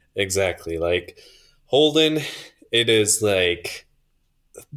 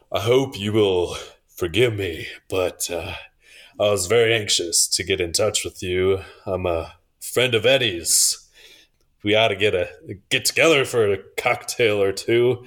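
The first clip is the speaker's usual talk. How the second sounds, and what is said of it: Deep voice. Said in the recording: “in a deep voice”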